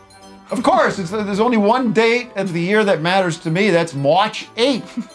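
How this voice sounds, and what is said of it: Put-on Chicago accent. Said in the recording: “I've been doing a Chicago accent all day”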